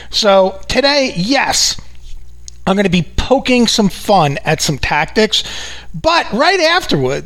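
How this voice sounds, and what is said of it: New York accent. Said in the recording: “in true New York fashion, if you haven't figured it out from this accent that follows me around like a shadow”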